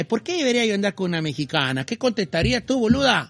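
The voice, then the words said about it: Put-on Argentine Spanish accent. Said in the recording (Spanish): “¿qué acento me sale bien? Argentino.”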